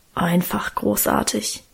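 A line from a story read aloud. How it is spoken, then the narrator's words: Reverent mumble. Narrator (German): brummelte Guste andächtig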